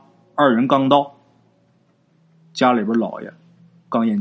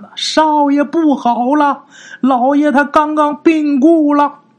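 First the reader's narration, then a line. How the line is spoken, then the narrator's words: Maid shouting urgently while running. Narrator (Chinese): 丫鬟飞奔而来呀，嘴上喊的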